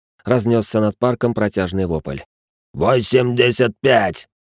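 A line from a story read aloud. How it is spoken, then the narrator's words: Growled in reply. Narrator (Russian): прорычали в ответ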